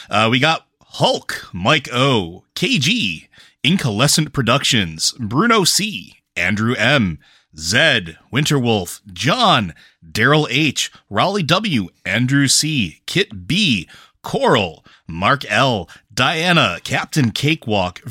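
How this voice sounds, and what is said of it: Announcer voice. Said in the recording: “do your announcer voice?”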